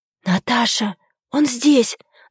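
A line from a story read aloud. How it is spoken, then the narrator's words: Whispering into phone. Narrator (Russian): зашептала в трубку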